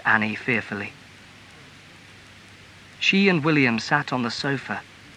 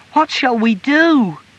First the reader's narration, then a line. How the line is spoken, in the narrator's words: cried the boy in alarm